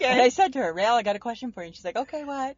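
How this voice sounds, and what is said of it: Impression of a young millennial. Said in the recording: “that's my impersonation.”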